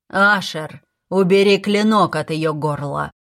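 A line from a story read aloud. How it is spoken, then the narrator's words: Quiet but whip-sharp. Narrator (Russian): он произнес эти слова тихим голосом, они все равно прогремели, как щелчок хлыста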